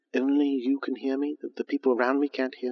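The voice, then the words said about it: Very quiet, close-mic aside. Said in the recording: “my voice is very quiet, and I'm very close to the microphone”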